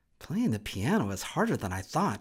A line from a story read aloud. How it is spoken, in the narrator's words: muttered